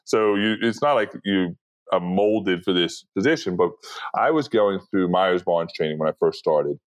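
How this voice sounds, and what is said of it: Deep New York accent. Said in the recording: “I have a deep New York accent. I don't enunciate my words, you know, great.”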